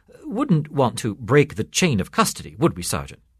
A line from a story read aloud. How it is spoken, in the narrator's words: quickly saying